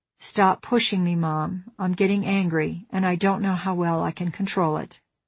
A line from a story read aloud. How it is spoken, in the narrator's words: in a soft voice that carried warning power, he said